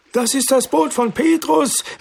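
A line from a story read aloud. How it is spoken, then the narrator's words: Calling out. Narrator (German): rief Levi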